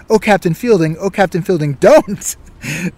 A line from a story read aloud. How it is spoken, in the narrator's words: Mackenzie exclaimed